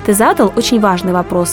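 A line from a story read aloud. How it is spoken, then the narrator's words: Plain. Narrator (Russian): ответил Гилель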